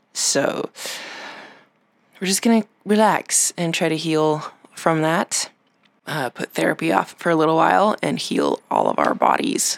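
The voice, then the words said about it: Slightly raspy voice. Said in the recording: “we've all come down with a sickness ... my voice sounds a little raspy”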